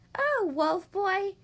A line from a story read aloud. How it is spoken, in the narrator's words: the rabbits playfully said